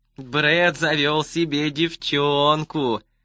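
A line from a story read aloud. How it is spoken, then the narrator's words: Singsong drawl. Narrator (Russian): нараспев протянул он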